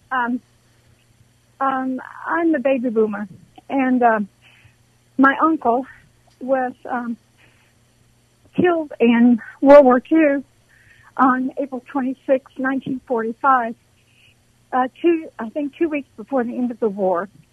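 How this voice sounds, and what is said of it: Emotional, shaky voice. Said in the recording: “I'm just a little emotional.”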